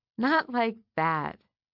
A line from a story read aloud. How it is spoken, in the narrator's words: she said, laughing